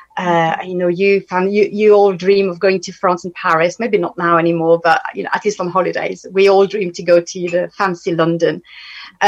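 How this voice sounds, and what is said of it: French accent. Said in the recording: “some can hear in my voice. I'm French.”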